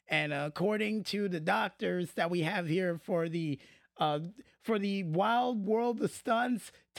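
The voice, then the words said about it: Voice sounds rough and damaged. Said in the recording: “your voice sounds terrible ... my voice sounds terrible ... taking those weeks off only made my voice worse”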